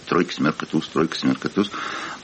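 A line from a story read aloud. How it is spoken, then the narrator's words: Muttering. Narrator (Russian): бормочет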